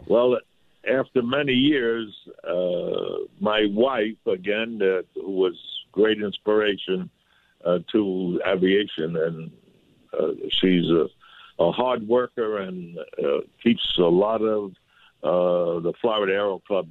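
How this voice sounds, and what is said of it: New York accent. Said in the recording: “I know that your audience hears my accent. I left New York, but New York never left me.”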